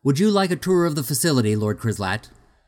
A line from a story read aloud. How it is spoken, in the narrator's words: Tornak asked loudly